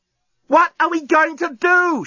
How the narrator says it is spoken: She yelled

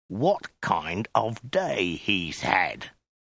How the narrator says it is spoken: hissed

